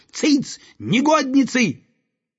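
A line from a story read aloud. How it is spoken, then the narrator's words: Shout. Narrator (Russian): он крикнул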